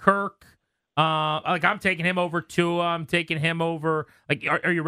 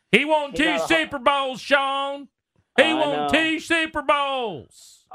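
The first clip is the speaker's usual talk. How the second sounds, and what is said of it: Yelling generic meathead sports-fan voice. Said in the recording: “you guys do a better New York accent than that. You guys sound more meatbally than that... It's just our generic meathead that yells about offensive lines.”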